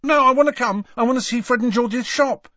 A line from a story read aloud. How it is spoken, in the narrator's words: said Ron hastily